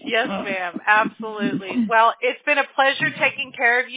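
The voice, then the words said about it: South Carolina Southern accent. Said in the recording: “It's that crazy woman from South Carolina again. We can tell by that accent.”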